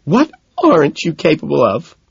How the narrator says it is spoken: She asks, sobbing

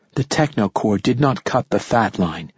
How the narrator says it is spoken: she said softly

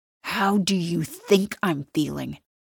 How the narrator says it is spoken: he hisses

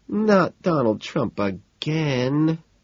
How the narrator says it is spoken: Evelyn moans

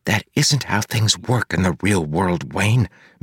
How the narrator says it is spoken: Marcy whispered

